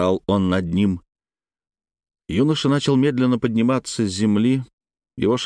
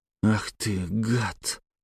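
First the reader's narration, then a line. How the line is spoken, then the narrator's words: Rasping. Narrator (Russian): прохрипел Алексей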